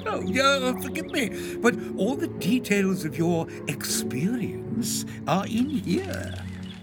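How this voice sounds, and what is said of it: English accent. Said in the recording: “are you English? ... a familiar accent”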